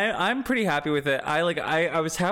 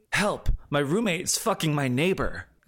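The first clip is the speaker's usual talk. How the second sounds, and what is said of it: Gruff, anime-dub style character voice. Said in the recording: “good Buck impression ... halfway between like gruff Oliver Stark voice and like, you know, one of those like shonen anime English four kids dub protagonists”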